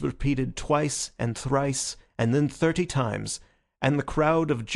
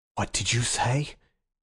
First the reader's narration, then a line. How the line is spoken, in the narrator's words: he asked in an inhuman voice